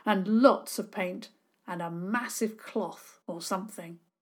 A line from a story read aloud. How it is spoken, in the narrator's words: he said firmly